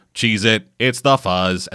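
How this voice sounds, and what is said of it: Droning monotone robot voice. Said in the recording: “droning fucking Galra robots in this fucking monotone voice”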